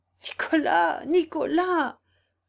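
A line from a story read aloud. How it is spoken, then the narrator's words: Moaning again. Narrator (French): gémit de nouveau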